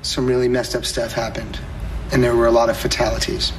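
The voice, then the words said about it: Deliberately serious, grave tone. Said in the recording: “You're putting your serious voice on”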